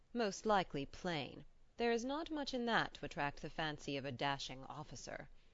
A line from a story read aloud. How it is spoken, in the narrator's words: chuckled the physician